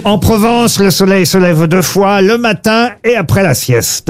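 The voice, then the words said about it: Put-on southern French Provençal accent. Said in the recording (French): “Vous avez utilisé un petit accent. ... Bah oui, puisque ça parle du midi en Provence.”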